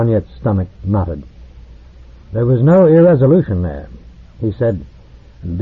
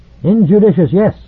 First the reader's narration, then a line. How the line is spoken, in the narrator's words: said the Eskonian curtly